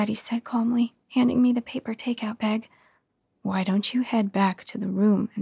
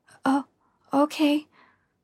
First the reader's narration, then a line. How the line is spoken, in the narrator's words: I stammered